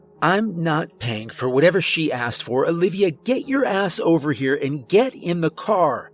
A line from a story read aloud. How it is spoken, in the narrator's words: she screamed in my direction